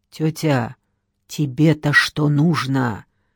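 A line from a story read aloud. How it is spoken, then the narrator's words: Hissing. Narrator (Russian): прошипел Федор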